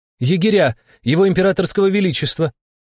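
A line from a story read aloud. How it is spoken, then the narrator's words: Shouted reply. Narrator (Russian): крикнула в ответ Стекловата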